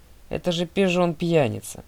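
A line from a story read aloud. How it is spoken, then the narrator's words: Irritated sigh. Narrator (Russian): Мистер Д раздраженно вздохнул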